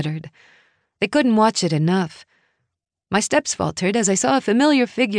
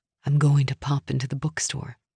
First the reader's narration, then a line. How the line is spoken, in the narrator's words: Nora said softly